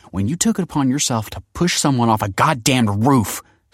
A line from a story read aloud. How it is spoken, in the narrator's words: snarled Kelsey